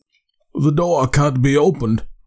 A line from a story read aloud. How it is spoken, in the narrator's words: he groaned